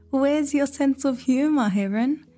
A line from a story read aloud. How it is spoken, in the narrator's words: Fox squealed, still laughing